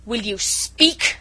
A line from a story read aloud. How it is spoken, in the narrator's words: thundered Chauvelin menacingly